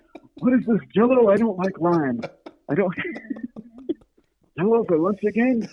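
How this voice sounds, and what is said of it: Usual voice. Nothing is said of it.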